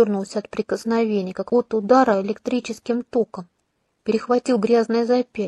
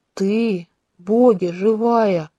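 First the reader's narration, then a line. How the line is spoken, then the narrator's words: Helpless sobbing. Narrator (Russian): Князь бессильно разрыдался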